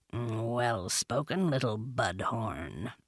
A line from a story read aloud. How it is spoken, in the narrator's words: Bagheera purred